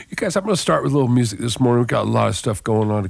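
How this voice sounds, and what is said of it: Rough, sick-sounding voice. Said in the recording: “I've been caught up with a cold, so my voice is feeling a little rough this morning”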